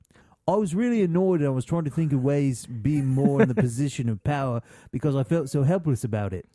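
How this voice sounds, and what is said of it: Put-on English accent. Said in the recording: “Let me do this in the right accent.”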